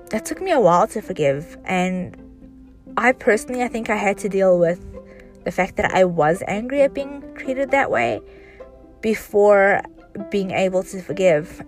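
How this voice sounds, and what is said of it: Voice strained from illness. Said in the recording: “excuse my voice. I've been sick. I'm getting better, but still there.”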